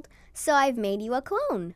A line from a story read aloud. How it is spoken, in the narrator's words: chuckled